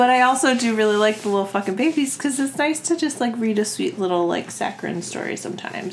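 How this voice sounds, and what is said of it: Usual voice. Nothing is said of it.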